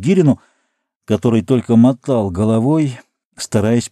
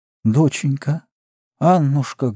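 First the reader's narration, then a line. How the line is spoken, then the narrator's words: Muffled, halting, sick voice. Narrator (Russian): глухо и невнятно запинаясь, сказала больная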